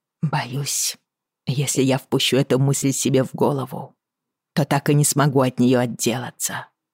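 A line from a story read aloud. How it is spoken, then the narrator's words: Hoarse. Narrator (Russian): хрипло сказала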